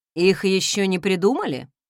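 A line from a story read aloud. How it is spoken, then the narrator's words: Husband's scoffing grunt. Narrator (Russian): хмыкнул муж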